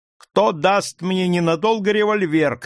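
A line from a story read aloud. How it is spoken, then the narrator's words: Shout. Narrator (Russian): крикнул я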